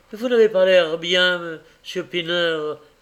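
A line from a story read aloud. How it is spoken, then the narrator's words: Exclaimed. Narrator (French): s'écria-t-il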